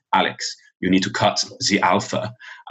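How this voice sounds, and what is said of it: Put-on German accent. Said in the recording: “I'll do the accent as best I can ... a German teacher”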